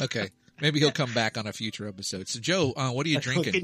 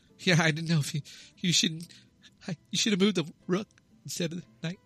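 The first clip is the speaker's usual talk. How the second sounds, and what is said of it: Imitates another person's voice. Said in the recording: “my stupid Michael Cera impression”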